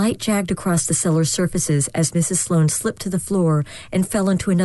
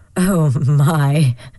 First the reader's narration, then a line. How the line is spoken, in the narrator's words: she finally chuckled, sniffing loudly